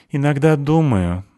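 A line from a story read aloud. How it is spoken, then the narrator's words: Sigh. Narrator (Russian): вздохнул он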